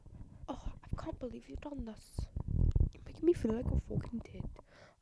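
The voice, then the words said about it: Put-on British accent, sounds Scottish. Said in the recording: “I thought that I could work on my British accent. That sounds quite Scottish, doesn't it? ... I sound a little bit Scottish, or maybe this is British.”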